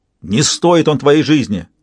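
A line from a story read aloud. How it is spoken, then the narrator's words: Barked, female warrior. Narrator (Russian): рявкнула воительница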